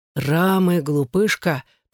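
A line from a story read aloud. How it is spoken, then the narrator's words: Hissed. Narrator (Russian): прошипел Джонни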